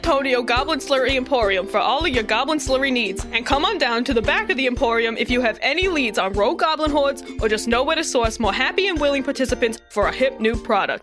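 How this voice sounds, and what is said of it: Polished customer service voice. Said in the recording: “That was hyper professional. ... I used a bit of my customer service voice there.”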